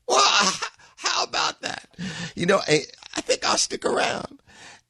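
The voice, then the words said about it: Poor Bill Clinton impression. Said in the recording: “I know I don't do a good Clinton ... I don't do good impersonations in general”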